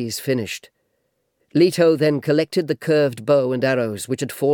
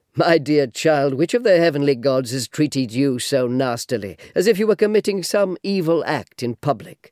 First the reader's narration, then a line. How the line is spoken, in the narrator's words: Her father, Cronos' son, asked her with a gentle laugh